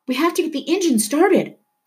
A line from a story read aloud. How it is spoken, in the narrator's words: Puppy cried